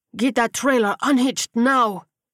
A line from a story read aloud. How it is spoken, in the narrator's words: Rodriguez bellowed from the SUV